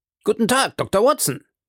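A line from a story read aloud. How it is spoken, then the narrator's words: Called in unusually good mood. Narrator (German): rief er mit ungewohnt guter Laune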